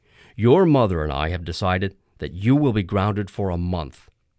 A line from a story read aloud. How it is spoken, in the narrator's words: Dad said sharply